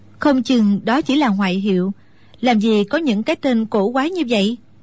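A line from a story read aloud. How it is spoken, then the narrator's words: Smiling. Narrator (Vietnamese): Mẫn Nhu chỉ mỉm cười rồi nói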